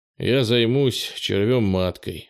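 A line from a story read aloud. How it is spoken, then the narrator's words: Sighing. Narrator (Russian): вздохнул Кенни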